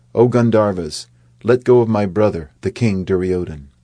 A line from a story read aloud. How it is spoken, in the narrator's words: Arjuna, hoping that they may be able to convince the Gandharvas without bloodshed, called out